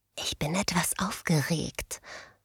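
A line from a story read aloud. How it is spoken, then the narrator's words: Whispered. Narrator (German): flüsterte Annalena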